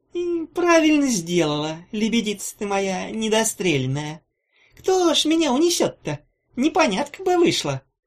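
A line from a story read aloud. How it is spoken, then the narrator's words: Sugary voice, chilling undertone. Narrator (Russian): сказала она сладким голоском, в котором сквозь варенье угадывался могильный холод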